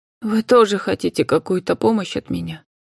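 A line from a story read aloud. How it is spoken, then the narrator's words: Dejected voice. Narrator (Russian): упавшим голосом произнесла женщина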